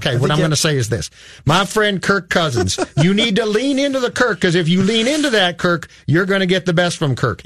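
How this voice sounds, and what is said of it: Imitated Southern-accented football voice. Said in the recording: “Like Brett Favre. ... With the Southern accent?”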